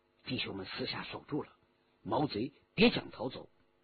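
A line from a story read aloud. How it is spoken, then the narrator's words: Low voice. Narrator (Chinese): 徐天红低声说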